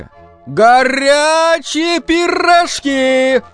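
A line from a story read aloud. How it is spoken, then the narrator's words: Vendor shouting in frost. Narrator (Russian): кричала румяная продавщица на перекрестке, приплясывая от мороза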